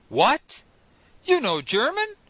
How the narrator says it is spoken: I exclaimed

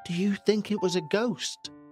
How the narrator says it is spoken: His voice barely audible

